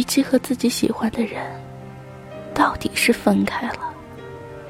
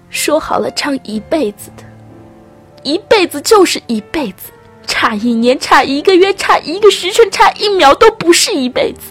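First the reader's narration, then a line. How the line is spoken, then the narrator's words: Bitter shout. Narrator (Chinese): 虞姬恨恨的喊着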